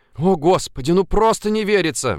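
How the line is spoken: Excited, breathless. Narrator (Russian): взволнованно выдохнула Ульяна

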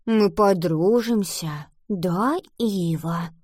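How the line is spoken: Whisper. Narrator (Russian): прошептала она

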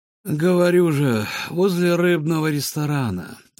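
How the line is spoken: Lazy, sated. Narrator (Russian): ответил тот, лениво развалившись на травке с набитым животом

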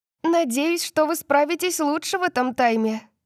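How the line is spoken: Shouted after them. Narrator (Russian): крикнула Гвен нам вслед

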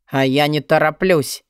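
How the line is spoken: Growled. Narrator (Russian): рыкнул Ладон

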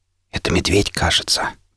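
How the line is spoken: Whisper. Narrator (Russian): прошептал я

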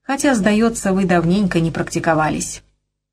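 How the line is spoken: Forced cheerful tone. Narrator (Russian): закончил Торп нарочито веселым тоном

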